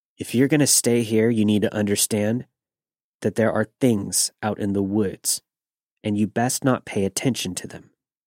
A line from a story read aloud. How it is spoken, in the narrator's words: he said